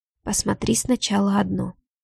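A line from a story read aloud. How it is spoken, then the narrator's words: Soft whisper. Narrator (Russian): тихо шепчет Ваня и улыбается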